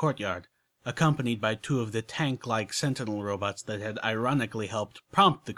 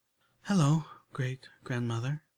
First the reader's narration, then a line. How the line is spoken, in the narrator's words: she said softly